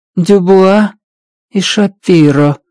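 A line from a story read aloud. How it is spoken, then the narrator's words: Flat colorless voice. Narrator (Russian): бесцветным голосом произнесла она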